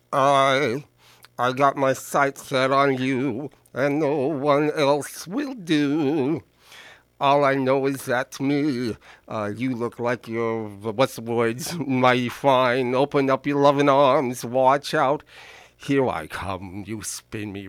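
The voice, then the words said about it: Singing in a character voice. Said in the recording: “character voice”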